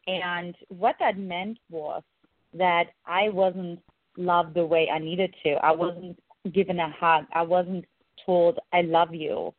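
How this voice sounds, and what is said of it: German accent. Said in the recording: “in case the listeners can't identify my accent, I grew up in Eastern Germany”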